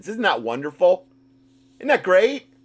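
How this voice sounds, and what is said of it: Sarcastic tone. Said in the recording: “I'm being sarcastic”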